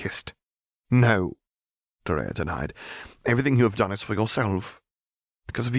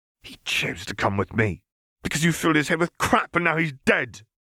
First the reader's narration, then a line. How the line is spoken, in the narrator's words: Dorea spat